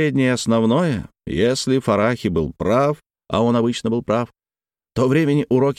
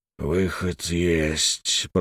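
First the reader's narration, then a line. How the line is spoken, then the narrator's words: Whisper. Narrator (Russian): прошептал Букаяк, брат Роки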